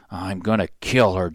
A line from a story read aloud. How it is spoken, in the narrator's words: Jack muttered